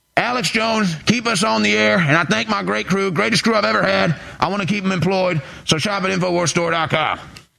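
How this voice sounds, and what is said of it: Alex Jones impression, Louisiana twang. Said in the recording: “your Alex Jones impression has a bit of a Louisiana accent. ... A bit of a down deep south vibe.”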